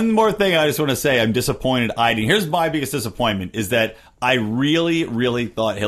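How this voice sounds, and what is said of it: Usual voice. Nothing is said of it.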